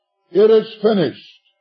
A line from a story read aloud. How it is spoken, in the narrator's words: the Lord Jesus Christ upon Calvary cried with the voice of triumph and victory